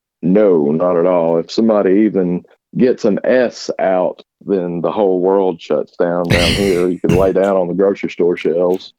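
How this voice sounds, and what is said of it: Southern Alabama accent. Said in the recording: “Where's your accent from, dude? Are you like Alabama, Missouri? ... Alabama, yeah.”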